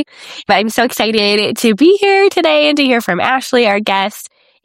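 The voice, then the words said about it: Groggy, under-the-weather voice. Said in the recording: “I am a little under the weather today, so my voice sounds a little groggy”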